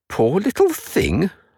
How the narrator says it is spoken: scoffed Joel

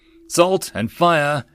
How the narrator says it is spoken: Wolf nervously asked

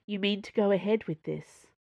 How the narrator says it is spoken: Porthos asked softly

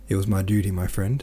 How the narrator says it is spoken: replied the consul

